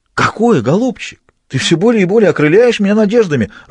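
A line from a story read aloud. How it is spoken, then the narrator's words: Joyful exclamation. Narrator (Russian): радостно воскликнул Альбер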